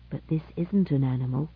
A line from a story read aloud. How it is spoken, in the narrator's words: whispered Alvin in return